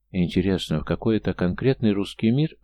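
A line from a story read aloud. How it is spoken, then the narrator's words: Even tone. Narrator (Russian): ровным тоном осведомился Тим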